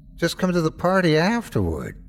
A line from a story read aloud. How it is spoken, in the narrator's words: she whined